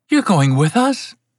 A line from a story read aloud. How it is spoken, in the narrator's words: she said happily